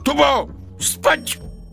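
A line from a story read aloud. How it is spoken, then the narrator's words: Shout. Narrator (Russian): Я крикнул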